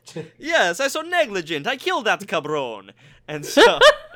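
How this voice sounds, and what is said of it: Over-exaggerated Italian accent. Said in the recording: “can you just do it in an over exaggerated Italian one instead?”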